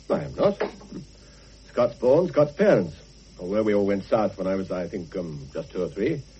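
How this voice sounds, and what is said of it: English accent. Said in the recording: “But you're English, aren't you? ... Your English twang.”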